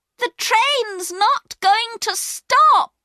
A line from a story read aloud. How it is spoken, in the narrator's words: shouted